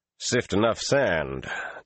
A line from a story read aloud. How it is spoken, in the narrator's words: Taim said stiffly